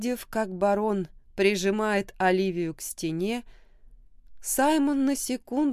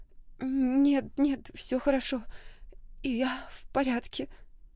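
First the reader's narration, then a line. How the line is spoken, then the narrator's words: Sobbing reassurance. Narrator (Russian): всхлипывая, уверяла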